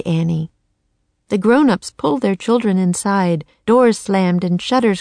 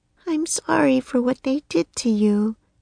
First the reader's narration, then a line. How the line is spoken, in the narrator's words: Annie said softly to the raven